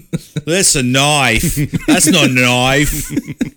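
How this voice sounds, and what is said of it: Put-on Crocodile Dundee accent. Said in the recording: “Crocodile Dundee ... It's a hard accent for me ... I think you got the accent down.”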